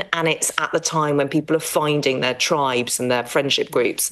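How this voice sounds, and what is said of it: English accent. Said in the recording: “I've always spoken with this English accent.”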